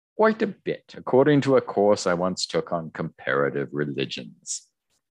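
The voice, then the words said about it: Put-on posh British accent. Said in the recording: “I'll do Brick's voice as like a British posh accent from now on. ... I'm laughing because from hearing your accent.”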